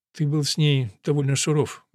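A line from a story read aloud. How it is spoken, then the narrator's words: Gentle reproach. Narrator (Russian): мягко упрекнула Керис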